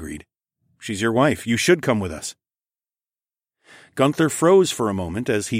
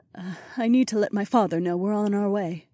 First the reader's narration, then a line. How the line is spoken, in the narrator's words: she murmured